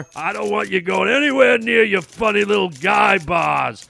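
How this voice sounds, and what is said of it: Growly voice like a grizzly bear. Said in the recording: “You sound like a grizzly bear waking up out of hibernation.”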